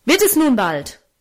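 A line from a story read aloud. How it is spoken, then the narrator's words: Angry shout. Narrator (German): rief er zornig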